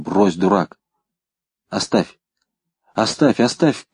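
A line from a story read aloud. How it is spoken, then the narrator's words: Breathless mutter. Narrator (Russian): задыхаясь, бормотал Рысьев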